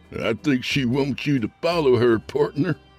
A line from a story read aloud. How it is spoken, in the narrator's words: somebody said, chuckling